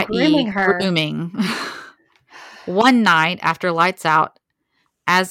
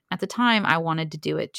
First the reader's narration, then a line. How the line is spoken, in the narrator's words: says